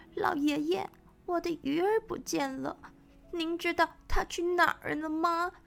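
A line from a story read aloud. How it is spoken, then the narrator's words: Crying. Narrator (Chinese): 叶线哭着说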